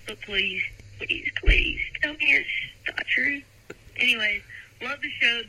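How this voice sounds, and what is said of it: Southern US accent. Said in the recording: “from North Carolina ... you are listening to your accent, lady”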